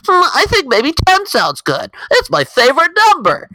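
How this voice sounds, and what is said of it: Imitates another person's voice. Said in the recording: “It's not a Trump impression, but that's what he sounds like in my head.”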